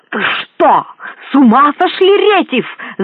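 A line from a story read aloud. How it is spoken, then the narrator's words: Shouting, voice breaking. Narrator (Russian): закричал он срывающимся голосом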